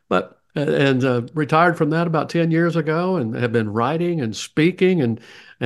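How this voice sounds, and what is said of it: Southern accent. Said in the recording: “with my Southern accent”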